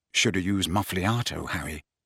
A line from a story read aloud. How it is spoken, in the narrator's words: said Ron, adding quietly when she had turned away again